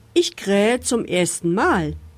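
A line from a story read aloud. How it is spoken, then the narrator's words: Rooster calling down. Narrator (German): rief der goldene Hahn herunter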